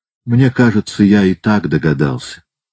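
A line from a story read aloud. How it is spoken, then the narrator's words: Calm. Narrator (Russian): сказал он спокойно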